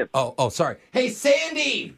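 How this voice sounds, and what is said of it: Yelling across the room. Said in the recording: “the lady you're yelling at ... You're shouting back and forth.”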